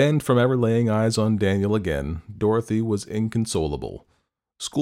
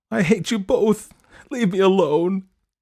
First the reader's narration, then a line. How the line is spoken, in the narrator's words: sobbed